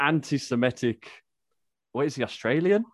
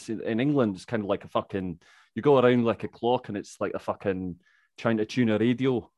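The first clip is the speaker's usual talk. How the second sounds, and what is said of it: Put-on Scottish accent. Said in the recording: “That's my Scottish accent.”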